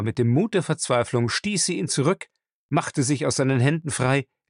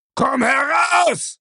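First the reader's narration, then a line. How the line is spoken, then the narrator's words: Roared. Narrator (German): brüllte er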